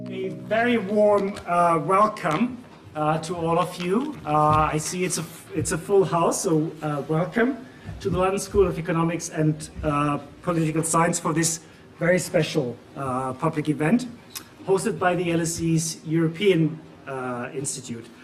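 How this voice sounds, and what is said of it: German accent speaking English. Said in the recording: “As you can tell from both my accent and the name, I'm German as well.”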